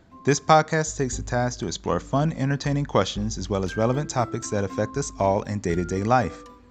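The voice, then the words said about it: Monotone flat speaking voice. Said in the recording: “my monotone voice”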